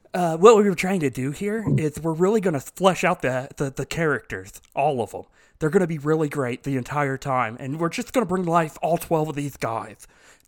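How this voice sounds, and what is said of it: Imitates another person's voice. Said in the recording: “That is spot on Dallas Jenkins impersonation.”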